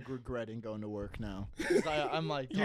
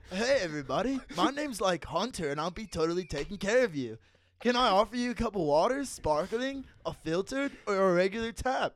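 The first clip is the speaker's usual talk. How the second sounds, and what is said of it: Surfer-style restaurant server voice. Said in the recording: “I'm gonna talk in a server voice, a surfer serve. I'm gonna combine the two.”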